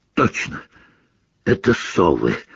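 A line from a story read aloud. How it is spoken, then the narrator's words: Hoarse. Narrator (Russian): хрипло сказал Рон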